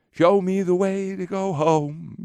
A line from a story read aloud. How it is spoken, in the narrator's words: she sings